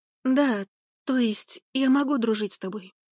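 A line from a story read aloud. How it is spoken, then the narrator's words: Uncertain. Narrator (Russian): Неуверенно проговорила я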